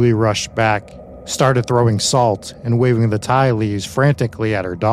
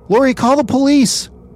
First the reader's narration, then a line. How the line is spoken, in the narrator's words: screamed, not knowing what else to do